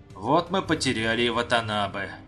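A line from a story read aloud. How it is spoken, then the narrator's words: Sad sigh. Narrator (Russian): Вздохнул Дэнна, с грустью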